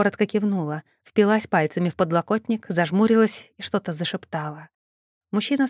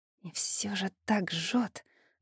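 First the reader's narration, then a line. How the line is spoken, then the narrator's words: Whispered. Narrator (Russian): прошептала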